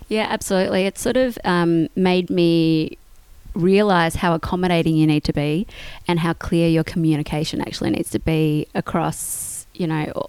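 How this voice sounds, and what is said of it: Australian accent. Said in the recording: “You are obviously, by your accent, Australian.”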